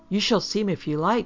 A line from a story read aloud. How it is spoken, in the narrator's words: she answered eagerly